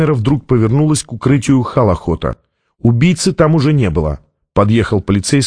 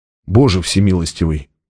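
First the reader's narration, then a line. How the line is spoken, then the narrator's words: Whisper. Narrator (Russian): прошептал Джабба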